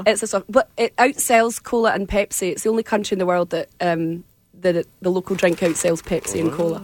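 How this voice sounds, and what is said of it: Scottish accent. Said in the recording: “your accent I can understand, but there are some people that I cannot from Scotland”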